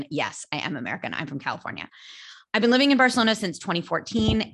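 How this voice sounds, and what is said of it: American accent. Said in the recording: “you sound American.”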